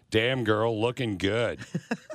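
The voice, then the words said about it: Deep, sultry seductive voice. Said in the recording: “in your sexiest voice possible”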